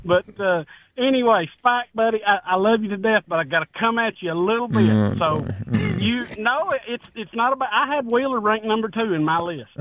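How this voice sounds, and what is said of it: East Tennessee country twang. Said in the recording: “That's my country twang kicking in, I guess. ... That's East Tennessee just rolling out the tongue.”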